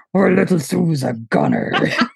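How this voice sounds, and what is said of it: Cookie Monster voice impression. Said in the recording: “in the Cookie Monster voice”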